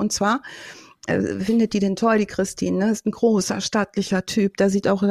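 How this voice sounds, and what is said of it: Usual voice. Nothing is said of it.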